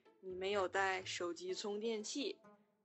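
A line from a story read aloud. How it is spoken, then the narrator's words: Flat, indifferent. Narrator (Chinese): 幺哥淡淡的说了一句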